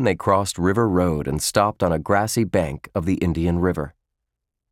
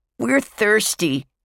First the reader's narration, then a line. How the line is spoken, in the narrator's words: Bradley yelled from Polly's back